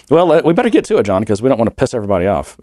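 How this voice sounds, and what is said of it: Deep bass voice from a cold. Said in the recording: “I've got that bass that I've got a cold. I've got the bass voice.”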